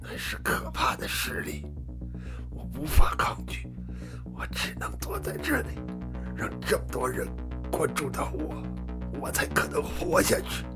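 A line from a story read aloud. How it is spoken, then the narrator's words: Hoarse, strained male voice. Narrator (Chinese): 男子从喉咙里挤出嘶哑的声音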